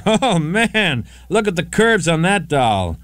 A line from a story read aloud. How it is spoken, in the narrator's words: he shouted out